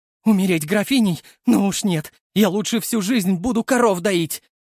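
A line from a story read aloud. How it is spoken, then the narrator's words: Shrieking. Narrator (Russian): взвизгнула она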